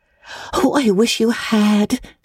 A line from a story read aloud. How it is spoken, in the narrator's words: sighed Anne